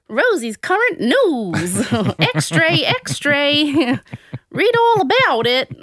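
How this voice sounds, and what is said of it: Unidentifiable put-on news-crier accent. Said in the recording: “I don't know what even was that accent”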